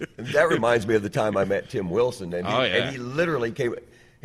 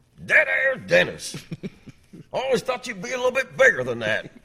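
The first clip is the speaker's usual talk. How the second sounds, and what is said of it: Imitates another person's voice. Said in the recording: “that was a pretty good Tim Wilson impersonation”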